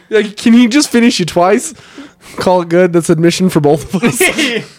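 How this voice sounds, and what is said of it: Put-on Boston accent. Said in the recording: “You said it with a Boston accent.”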